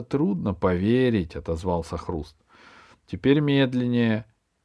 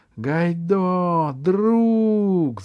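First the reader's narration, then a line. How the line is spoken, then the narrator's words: Shout. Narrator (Russian): закричал Пашка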